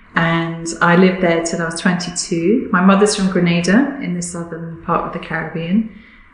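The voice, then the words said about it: Southern English accent. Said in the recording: “I grew up actually in the south of England. You can probably hear that from my accent.”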